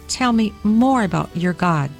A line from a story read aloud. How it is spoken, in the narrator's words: she said